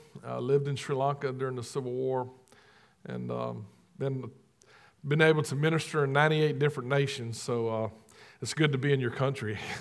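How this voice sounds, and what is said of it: Southern American drawl. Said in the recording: “you're listening to my southern drawl”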